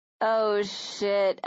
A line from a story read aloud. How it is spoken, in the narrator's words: Serena groaned